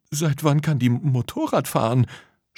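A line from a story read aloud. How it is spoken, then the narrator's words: Stammering. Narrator (German): stammelte Lisa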